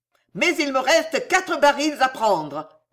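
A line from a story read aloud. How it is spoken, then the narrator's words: Old man yelling. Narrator (French): hurla le vieux Pardaillan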